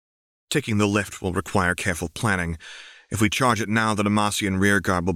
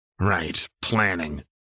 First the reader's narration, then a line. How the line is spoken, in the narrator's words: Jinx grumbled